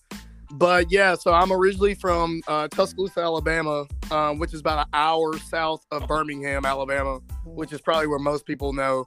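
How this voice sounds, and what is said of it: Southern US accent. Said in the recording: “y'all can probably tell from the accent. I'm not from, I'm definitely from the South.”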